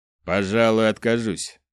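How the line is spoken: Offended, through gritted teeth. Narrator (Russian): процедил Дарган, которого сильно задели слова Изао

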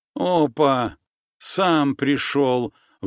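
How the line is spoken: Nasal breathy exclamation. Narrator (Russian): выдохнул гнусавый

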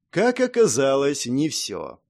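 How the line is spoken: Sighing. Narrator (Russian): вздохнул Альф

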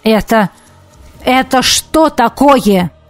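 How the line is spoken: Barked. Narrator (Russian): рявкнул он

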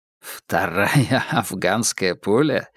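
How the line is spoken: Laughing. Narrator (Russian): рассмеялся Холмс

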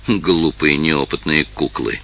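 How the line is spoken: Embarrassed mutter. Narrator (Russian): Увидев, что взгляды слуг обращены на него, и услышав их насмешки, пробормотал

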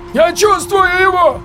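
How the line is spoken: Pained cry. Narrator (Russian): выкрикнул Владимир, извиваясь на снегу

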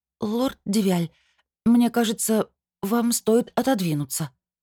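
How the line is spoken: Trembling voice. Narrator (Russian): сказала я дрогнувшим голосом

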